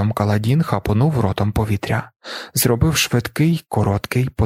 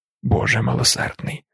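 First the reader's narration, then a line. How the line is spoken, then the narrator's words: Trembling mutter. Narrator (Ukrainian): пробурмотів Тефт, усвідомлюючи, що тремтить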